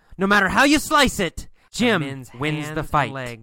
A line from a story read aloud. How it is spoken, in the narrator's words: yells